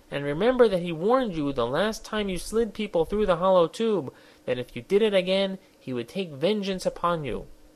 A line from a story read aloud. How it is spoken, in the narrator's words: he pleaded